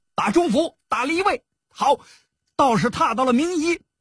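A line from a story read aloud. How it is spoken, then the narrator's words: Continuous shouting. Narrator (Chinese): 全金发不住口的叫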